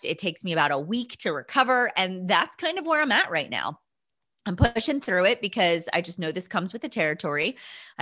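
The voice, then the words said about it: Hoarse, froggy voice. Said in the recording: “I lose my voice. You can probably hear it right now. It's a little froggy.”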